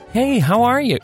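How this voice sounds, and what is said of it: Put-on friendly customer service voice. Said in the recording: “customer service voice that sounds nothing like your actual voice ... the Utah new neighbor voice ... nobody really talks like that”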